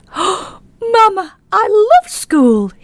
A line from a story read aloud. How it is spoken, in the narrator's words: he said excitedly